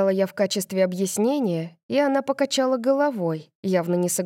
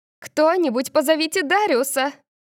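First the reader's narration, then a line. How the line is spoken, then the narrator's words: Shouting. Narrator (Russian): Маргарет закричала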